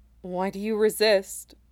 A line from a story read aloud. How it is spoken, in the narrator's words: the Faith asked him sadly